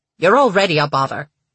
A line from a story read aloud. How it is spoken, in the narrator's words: Paige snapped